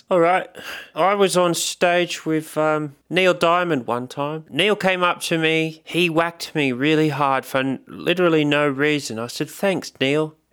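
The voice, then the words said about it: Put-on British accent. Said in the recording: “no roadie is complete without the British accent ... there were now two British roadies”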